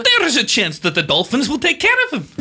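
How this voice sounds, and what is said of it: Put-on Norwegian accent. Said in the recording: “This is a Norwegian accent. ... you're worried about his accent.”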